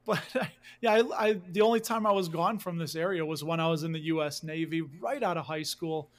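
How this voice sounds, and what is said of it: Chicago accent. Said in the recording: “I grew up in Chicago... You can hear a little bit of the accent... I'll let it flow through now naturally”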